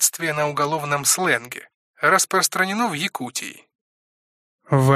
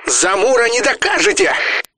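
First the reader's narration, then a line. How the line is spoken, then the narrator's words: Cracking falsetto shout. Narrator (Russian): Дав петуха, фальцетом выкрикнул глава стаба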